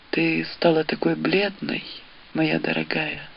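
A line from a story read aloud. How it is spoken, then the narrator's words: Barely audible. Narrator (Russian): Едва слышно сказал он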